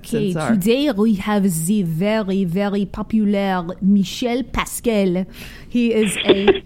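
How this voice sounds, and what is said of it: Exaggerated put-on French accent. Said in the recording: “Why don't you do it in a French accent? ... my horrible French accent ... No, it's beautiful.”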